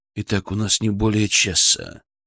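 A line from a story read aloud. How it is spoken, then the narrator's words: Quiet warning. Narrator (Russian): предупредил тихо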